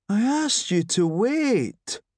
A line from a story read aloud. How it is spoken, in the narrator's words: moaned Shuggy